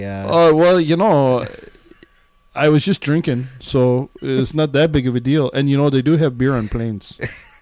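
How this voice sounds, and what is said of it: Put-on Canadian accent. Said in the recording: “your Canadian accent's changed”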